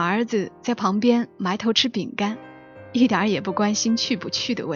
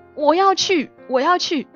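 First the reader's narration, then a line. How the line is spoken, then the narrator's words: Daughter shouting. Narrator (Chinese): 大女儿在一旁喊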